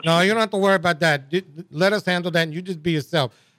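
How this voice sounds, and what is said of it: Cajun accent. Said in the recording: “that great Cajun accent that the two of you all have”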